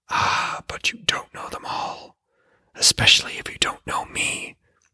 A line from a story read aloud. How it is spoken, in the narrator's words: hissed the voice from the well's depths